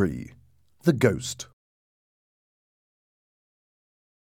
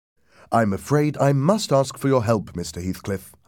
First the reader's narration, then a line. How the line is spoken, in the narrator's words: I said